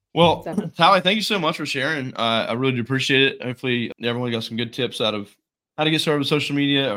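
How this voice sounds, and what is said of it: Congested, allergy-affected voice. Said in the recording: “I got my allergies today, so my voice is all messed up”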